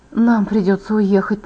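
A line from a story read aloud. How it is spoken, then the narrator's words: Whisper. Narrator (Russian): прошептала я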